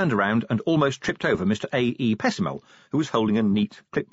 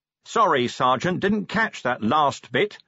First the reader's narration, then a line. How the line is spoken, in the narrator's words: said Vimes loudly